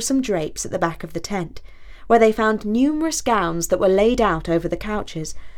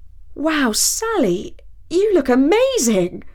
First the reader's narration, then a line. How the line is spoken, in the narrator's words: he exclaimed